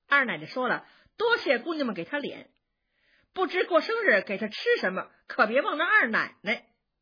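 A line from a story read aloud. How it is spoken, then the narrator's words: Young maid speaking. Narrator (Chinese): 小丫头回来说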